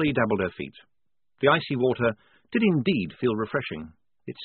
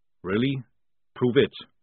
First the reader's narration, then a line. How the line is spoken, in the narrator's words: said Jackram calmly